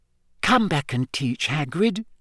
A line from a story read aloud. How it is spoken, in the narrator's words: said Hermione quietly